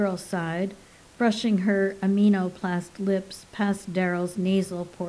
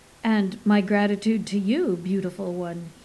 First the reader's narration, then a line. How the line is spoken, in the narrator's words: he said